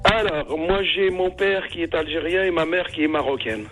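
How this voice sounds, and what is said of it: North African accented French. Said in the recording (French): “J'aime bien ton accent. Il est de quelle région en Algérie? ... c'est pour ça que t'as un bel accent.”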